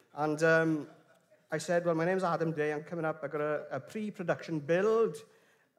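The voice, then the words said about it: Clear English accent. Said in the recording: “I've got a very clear English accent.”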